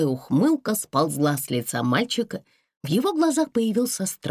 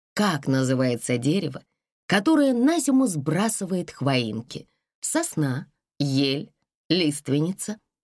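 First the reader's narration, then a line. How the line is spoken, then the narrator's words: Calm. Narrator (Russian): спокойно продолжала Вера Павловна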